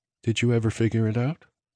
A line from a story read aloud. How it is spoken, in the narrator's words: She asked softly